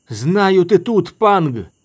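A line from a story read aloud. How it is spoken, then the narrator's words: Yelled. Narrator (Russian): заорал Дорин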